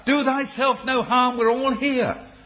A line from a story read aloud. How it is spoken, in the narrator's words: Paul shouts out